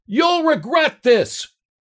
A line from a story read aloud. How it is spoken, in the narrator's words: he shouted